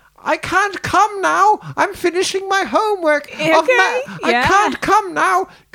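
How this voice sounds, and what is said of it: Put-on female character voice. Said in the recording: “he does the female voices like that”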